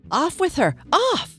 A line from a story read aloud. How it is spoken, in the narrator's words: The queen turned crimson with fury, screamed